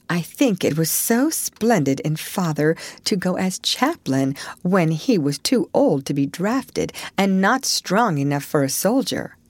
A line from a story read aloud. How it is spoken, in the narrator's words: said Meg warmly